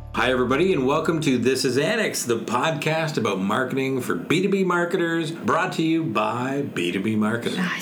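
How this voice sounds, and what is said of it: Polished radio announcer voice. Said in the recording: “You've got that real radio voice.”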